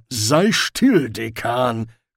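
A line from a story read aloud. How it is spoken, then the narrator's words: Growled. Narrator (German): knurrte Ridcully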